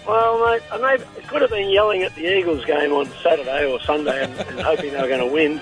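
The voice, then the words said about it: Hoarse, high-pitched sore-throat voice. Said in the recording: “excuse the voice. I've got a bad throat at the moment ... I'm sounding a bit high”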